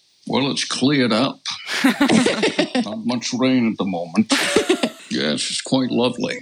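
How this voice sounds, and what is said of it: Sean Connery impression. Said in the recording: “your Sean Connery impression”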